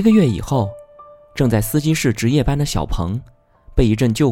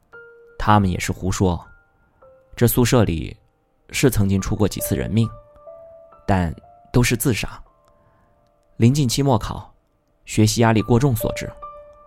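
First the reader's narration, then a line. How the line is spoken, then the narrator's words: Calm, indifferent. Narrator (Chinese): 陆秉成淡淡的说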